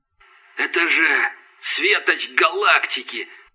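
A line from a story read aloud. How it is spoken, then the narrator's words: Scavenger's whisper. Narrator (Russian): прошептал падальщик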